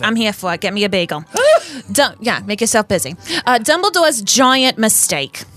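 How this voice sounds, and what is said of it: Put-on New York/New Jersey accent. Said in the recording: “Rita has a New York accent ... It's like a New Jersey, New York kind of thing.”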